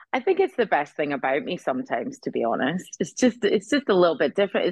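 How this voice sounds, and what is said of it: Scottish accent. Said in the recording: “She is also Scottish ... listen to her Scottish accent”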